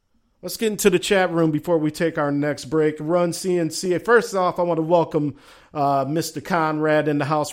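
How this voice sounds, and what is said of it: Southern US accent. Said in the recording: “Why ... sound like Foghorn Leghorn? I guess that's my southern accent”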